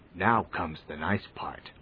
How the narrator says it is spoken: whispered Lord Boraz

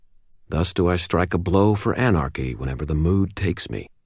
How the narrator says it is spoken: muttered

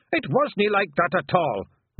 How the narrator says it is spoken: roared Rob Anybody

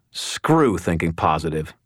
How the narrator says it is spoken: growled

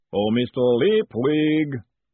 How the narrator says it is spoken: the voice boomed out across the stable yard

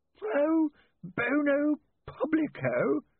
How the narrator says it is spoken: he croaked

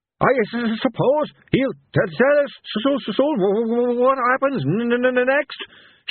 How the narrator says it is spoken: shouted Carrot

